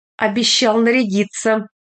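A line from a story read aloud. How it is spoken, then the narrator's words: Nervous laugh. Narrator (Russian): Трепович нервно хохотнул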